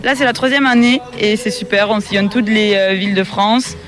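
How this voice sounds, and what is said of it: Slight southwestern French accent. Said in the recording (French): “vous avez un petit accent quand même ... Pas tout à fait celui de la Bigorre.”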